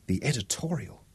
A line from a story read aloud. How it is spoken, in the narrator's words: whispered